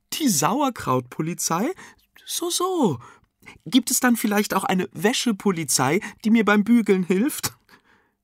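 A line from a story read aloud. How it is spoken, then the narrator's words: Giggling. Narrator (German): kichernd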